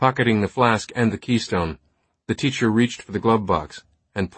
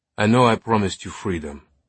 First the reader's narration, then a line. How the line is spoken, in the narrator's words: the teacher said, his voice now sounding regretful